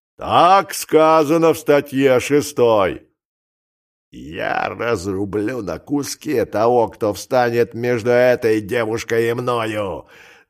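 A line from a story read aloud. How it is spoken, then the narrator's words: Growl. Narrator (Russian): зарычал Шарки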